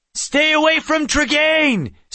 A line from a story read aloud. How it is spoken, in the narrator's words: Seth shouted from a distance